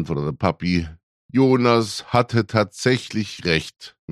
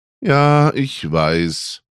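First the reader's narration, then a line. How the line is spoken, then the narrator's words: Rueful sigh. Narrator (German): seufzte Mutti, die ihre Raclette-Niederlage immer noch nicht ganz verdaut hatte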